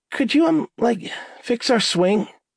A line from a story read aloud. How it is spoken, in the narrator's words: Becky asked in a raspy squeak